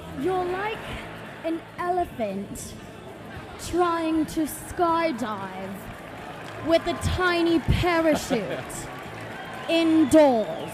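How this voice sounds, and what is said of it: Convincing put-on accent. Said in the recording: “Your accent's getting good.”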